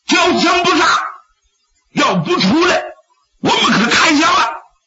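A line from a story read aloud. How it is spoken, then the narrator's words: Shouting. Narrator (Chinese): 高屯也喊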